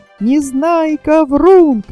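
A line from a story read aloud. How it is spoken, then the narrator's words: Group shouting. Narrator (Russian): кричали они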